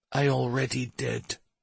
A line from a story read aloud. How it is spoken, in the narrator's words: whispered